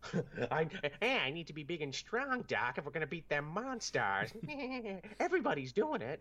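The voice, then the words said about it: Bad Bugs Bunny impression. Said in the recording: “That's the worst Bugs Bunny impression ever ... That was Bugs Bunny on, like, bath salts ... rotted his, like, his larynx”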